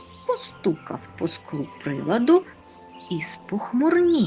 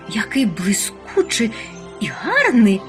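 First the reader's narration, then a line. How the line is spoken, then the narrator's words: Exclaimed. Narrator (Ukrainian): вигукнула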